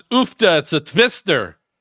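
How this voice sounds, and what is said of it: Horrible put-on Belgian accent. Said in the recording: “That's my horrible Belgian accent. ... I think that's a Frozen accent, right? One of the like Dutch people from Frozen.”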